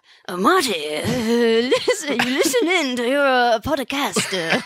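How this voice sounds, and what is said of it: Put-on Japanese samurai character voice. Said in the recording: “all I have is like a Japanese samurai voice ... Do Japanese samurai voice as Marty's mom”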